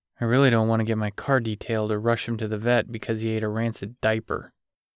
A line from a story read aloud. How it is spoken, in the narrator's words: he grumbled under his breath